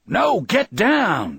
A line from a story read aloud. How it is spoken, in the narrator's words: Brad yells at him